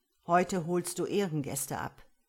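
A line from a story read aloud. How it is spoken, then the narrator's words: Plain. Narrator (German): sagte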